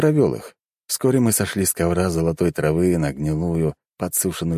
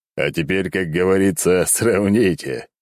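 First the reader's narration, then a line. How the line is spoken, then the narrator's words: Chuckling. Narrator (Russian): хохотнул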